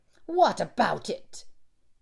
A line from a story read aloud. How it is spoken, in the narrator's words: he asked angrily